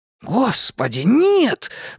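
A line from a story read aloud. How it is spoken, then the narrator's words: Horrified exclamation. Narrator (Russian): в ужасе воскликнул Ричи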